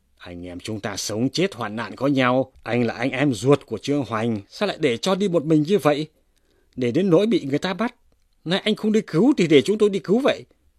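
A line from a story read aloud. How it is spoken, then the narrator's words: Outcry. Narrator (Vietnamese): Nguyễn Tiểu Thất nghe nói kêu lên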